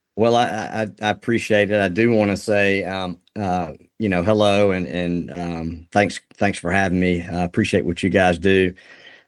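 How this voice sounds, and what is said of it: Southern American accent. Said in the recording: “you've got this Southern accent”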